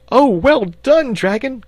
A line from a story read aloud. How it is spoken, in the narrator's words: cried the boy, excitedly